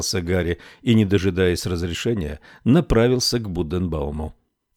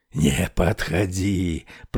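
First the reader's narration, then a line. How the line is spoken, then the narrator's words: Hoarse rasp. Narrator (Russian): прохрипел он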